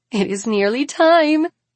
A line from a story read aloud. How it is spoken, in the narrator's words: one says and giggles